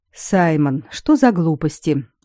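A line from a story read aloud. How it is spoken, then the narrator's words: Weary sigh. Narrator (Russian): утомленно вздохнул Дара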